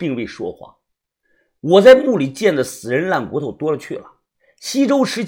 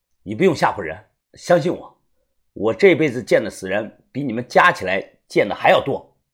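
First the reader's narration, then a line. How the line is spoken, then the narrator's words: Calm, indifferent. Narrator (Chinese): 淡淡的说道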